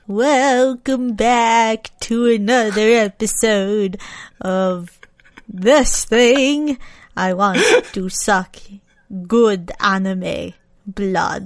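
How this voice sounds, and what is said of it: Spooky vampire Dracula voice. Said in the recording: “do a spooky vampire voice? Dracula voice?”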